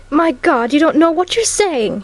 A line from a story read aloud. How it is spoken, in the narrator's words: cried, starting up